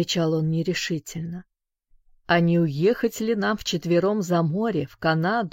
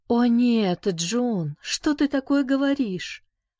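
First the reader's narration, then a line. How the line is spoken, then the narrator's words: Exclaiming woman. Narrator (Russian): воскликнула она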